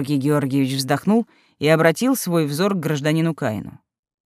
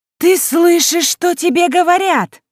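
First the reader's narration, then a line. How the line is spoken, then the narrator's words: Shrill furious squeal. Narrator (Russian): завизжала Элина, как кошка, которой наступили на хвост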